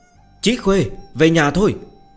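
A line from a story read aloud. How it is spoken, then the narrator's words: Loud call from afar. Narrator (Vietnamese): Ở phía xa, Tống Tập Tân cao giọng gọi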